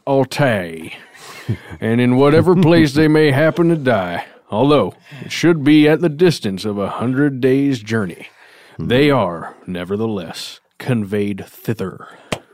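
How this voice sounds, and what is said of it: Put-on accent reading old text. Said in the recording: “that accent totally had me convinced ... the precision, it's doing it drips like butter ... It's the true voice of history.”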